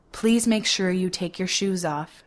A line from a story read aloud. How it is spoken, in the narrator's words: she says